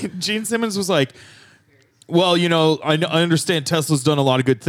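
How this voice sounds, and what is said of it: Usual voice. Nothing is said of it.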